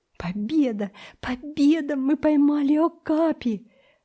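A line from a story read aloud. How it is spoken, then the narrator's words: Breathless exclamation. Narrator (Russian): воскликнул Томик, еле переводя дух от быстрого бега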